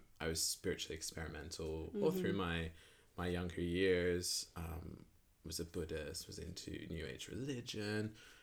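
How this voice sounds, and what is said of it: Britishized Australian accent. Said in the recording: “He has like a kind of Britishized Australian accent.”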